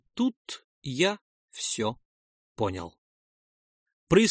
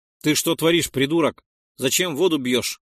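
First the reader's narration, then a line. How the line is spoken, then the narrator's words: Prisoner's barked shout. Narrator (Russian): гаркнул на него один из заключенных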